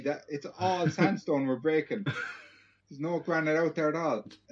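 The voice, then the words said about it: Attempted Dundalk Irish accent. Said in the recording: “I don't know what the Dundalk accent's like.”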